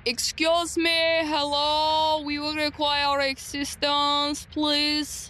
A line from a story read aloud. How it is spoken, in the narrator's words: Elias loudly yells